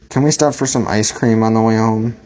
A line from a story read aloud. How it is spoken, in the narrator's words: Nate asked, panting for breath like a dog